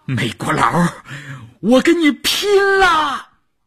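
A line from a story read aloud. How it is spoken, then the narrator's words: Desperate shout. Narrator (Chinese): 少月的喊声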